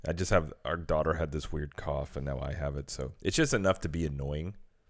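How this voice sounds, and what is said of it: Slightly strange, rough voice. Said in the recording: “My voice sounds a little strange. ... So if my voice sounds strange”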